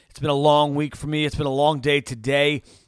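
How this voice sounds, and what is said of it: Tired, fatigued voice. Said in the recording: “My voice is a little fatigued.”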